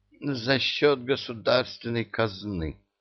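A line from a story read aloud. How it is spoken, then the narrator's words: Strained, horrified. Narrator (Russian): выдавил из себя Чебурашка, с ужасом думая о непредвиденной статье расходов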